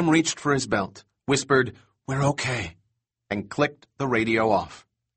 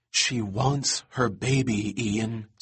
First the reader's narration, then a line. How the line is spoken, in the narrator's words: Sarah whispered